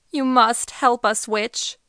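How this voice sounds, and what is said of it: Tremulous, shaky voice. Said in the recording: “the shepherd spoke in a tremulous voice.”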